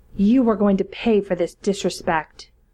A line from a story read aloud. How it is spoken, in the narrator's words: Mamatu snarled